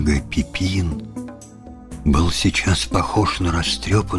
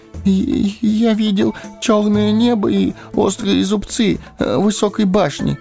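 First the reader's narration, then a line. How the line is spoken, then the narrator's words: Timid babbling. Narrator (Russian): пролепетал он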